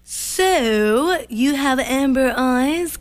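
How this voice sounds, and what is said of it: Odd put-on accent. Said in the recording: “odd. Accent. ... that was my best accent I could do for you.”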